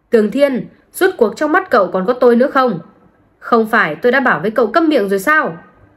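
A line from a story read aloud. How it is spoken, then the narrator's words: Angry. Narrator (Vietnamese): Tam Nhãn Hỏa tức giận, nói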